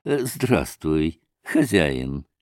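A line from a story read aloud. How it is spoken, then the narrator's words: Gentle voice. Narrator (Russian): сказал он ласковым голосом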